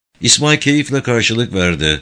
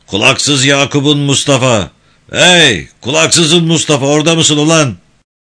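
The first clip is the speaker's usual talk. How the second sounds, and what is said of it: Thick, loud booming voice. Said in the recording (Turkish): “kalın sesiyle ortalığı inletti”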